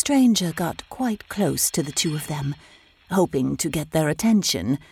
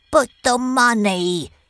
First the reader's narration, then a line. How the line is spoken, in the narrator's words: cried Mr